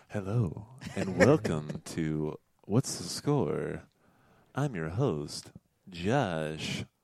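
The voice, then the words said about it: Smooth NPR radio host voice. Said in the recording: “He's got a good NPR voice ... That wasn't bad.”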